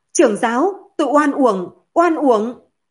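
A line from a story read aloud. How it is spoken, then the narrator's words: Near-apoplectic anger. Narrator (Vietnamese): Vương Tiến suýt tức giận tới hổ huyết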